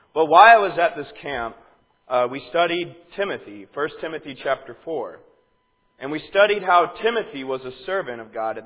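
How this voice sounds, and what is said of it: Strained, partly lost voice. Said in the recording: “lost my voice a little bit, so if I sound kind of monotone or I have like a voice crack or something ... I'm kind of losing my voice.”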